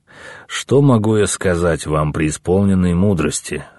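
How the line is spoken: Stalling sigh. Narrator (Russian): Стараясь выиграть хоть немного времени, вздохнул Наму

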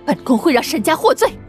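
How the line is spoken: Angry. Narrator (Chinese): 荣幸公主愤怒了

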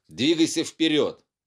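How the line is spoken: Shouted. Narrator (Russian): Он крикнул

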